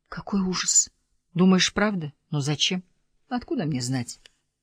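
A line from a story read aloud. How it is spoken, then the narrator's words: Startled whisper. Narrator (Russian): Милли вздрогнула и зашептала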